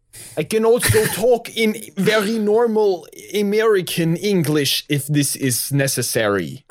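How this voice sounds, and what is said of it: Thick French accent. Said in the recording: “did you always have a very thick French accent?”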